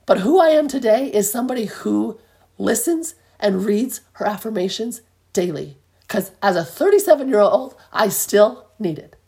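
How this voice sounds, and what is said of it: Very hoarse voice. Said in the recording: “I know my voice is crazy hoarse right now”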